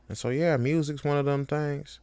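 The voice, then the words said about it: Put-on accent. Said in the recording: “I shouldn't dive into that accent anymore.”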